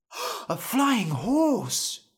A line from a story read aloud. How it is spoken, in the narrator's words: Norm said, gasping